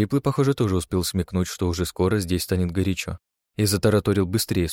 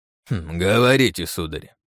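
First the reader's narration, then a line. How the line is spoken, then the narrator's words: Mocking reply. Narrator (Russian): насмешливо отозвался Юсупов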